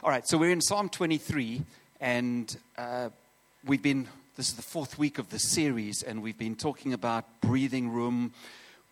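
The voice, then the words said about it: South African accent. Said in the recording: “I obviously am South African, which you detected from my accent”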